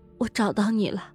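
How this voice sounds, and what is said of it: Barely audible whisper. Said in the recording (Chinese): “用微不可闻的声音说道”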